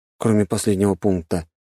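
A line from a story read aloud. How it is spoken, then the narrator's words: Sighing. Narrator (Russian): вздохнул я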